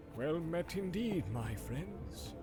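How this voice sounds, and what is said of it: Soft-spoken old man's voice. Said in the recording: “in a soft voice”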